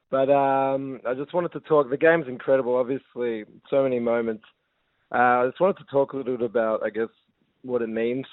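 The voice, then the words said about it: Hoarse, nearly lost voice. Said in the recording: “my voice is kind of gone ... kind of don't really have any voice”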